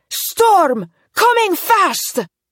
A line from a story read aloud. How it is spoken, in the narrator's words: Rose yelled to Elsa